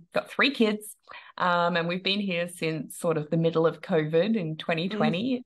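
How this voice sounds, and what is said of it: Australian accent. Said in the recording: “I'm an Aussie, if you can't hear the accent”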